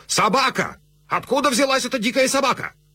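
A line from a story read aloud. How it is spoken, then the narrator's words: Sudden frantic shout. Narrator (Russian): Ординарец Гурго вдруг суматошно закричал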